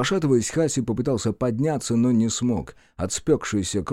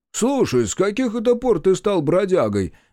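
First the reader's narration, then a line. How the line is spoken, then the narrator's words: Loud question. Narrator (Russian): громко спросил водитель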